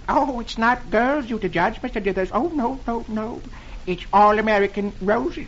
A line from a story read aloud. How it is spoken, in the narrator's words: the man says timidly